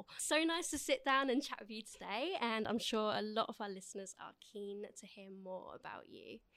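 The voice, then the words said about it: Soft, smooth radio-style voice. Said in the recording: “you've got a sexy little radio voice ... I've been told it's quite ASMR”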